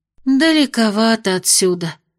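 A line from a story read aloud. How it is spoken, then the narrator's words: Sighing. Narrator (Russian): вздохнула Майя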